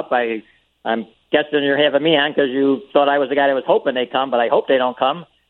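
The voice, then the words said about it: Strong Chicago accent, fast speech. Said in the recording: “you have the most Chicago accent of any person on the council ... Even the way you talk and how fast you are and how quick you are”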